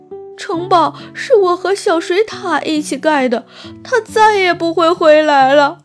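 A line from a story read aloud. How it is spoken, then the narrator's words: Crying. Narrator (Chinese): 富兰克林边哭边说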